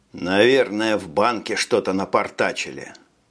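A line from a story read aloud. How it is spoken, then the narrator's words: Muttered. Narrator (Russian): пробурчал Брейн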